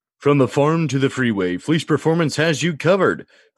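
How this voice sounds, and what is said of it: Radio announcer voice. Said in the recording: “test out my radio voice”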